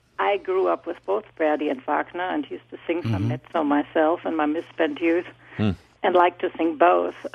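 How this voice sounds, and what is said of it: German accent. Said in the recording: “you may hear from my voice, I'm actually German”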